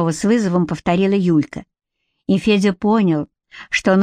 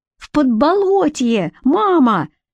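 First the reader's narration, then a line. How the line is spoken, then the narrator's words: Very loud shout. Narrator (Russian): закричал Федька так громко, словно его ударили кулаком по спине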